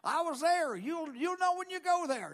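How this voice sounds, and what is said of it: Put-on Arkansas accent imitating someone. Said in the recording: “That's my Arkansas accent. That's how he talked.”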